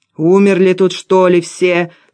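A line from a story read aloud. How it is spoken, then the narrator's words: Yelling. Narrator (Russian): заорал Валера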